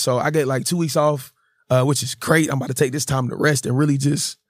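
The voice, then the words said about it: Hoarse, worn-out voice. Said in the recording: “my voice is kind of gone. My horse”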